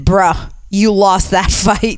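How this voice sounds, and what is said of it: Imitates another person's voice. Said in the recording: “That was a good impersonation, too.”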